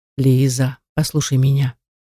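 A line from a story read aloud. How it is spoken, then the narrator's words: Gentle fatherly request. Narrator (Russian): ласково попросил папа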